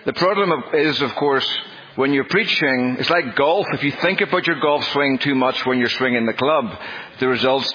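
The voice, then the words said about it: Northern Irish accent, slow speech. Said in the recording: “it's not just my accent. ... I was born with a fairly significant speech defect ... that makes me at times difficult to understand, especially even for people in Northern Ireland ... I do try to speak slowly”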